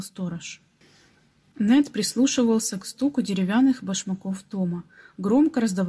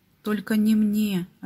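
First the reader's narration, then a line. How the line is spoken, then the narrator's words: Plain. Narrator (Russian): ответил Нед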